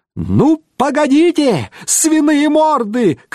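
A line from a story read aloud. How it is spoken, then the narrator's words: Funny high-pitched shouting. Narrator (Russian): кричал он смешным дисконтом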